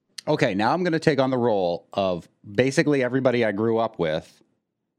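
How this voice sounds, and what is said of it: Usual voice. Nothing is said of it.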